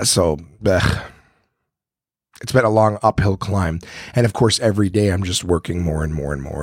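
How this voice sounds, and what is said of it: Strained, hoarse voice after illness. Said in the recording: “you guys can hear in my voice that I'm still trying to to recover from being sick ... I just don't have my voice back yet from all the coughing”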